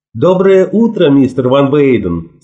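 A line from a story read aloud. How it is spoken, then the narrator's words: Plain. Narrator (Russian): сказала она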